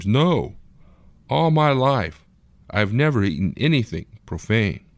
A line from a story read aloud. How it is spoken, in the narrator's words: Peter, a Jew who followed Jewish dietary laws, exclaims